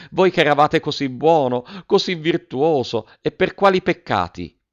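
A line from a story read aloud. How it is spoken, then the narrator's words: Woman exclaiming. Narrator (Italian): esclamò la signora Geltrude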